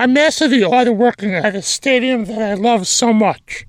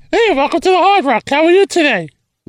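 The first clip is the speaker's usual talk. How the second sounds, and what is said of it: Funny put-on voice. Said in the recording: “What's wrong with your voice? ... I have a funny voice because I'm funny. ... you're a funny voice guy”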